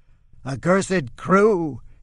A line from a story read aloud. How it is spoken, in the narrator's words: he screeches